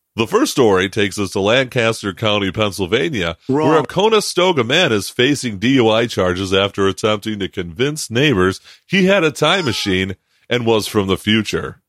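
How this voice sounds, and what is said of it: Radio announcer voice. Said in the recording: “That's my radio voice.”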